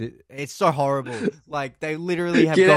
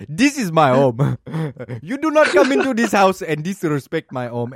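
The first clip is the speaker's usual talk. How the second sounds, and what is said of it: Put-on African accent. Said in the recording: “this guy from like Africa that has this accent”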